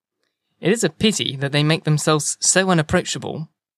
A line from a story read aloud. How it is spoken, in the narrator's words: he said